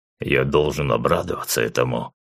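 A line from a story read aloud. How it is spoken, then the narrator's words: Grimacing mutter. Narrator (Russian): скривившись, буркнул Зеленый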